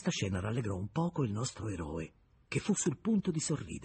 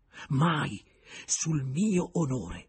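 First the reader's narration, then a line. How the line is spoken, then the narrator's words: Exclaimed. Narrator (Italian): esclamò Julien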